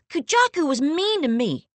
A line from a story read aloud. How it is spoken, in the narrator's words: whines